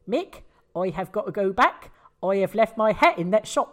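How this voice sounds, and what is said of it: Put-on regional English accent. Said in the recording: “That's a good accent.”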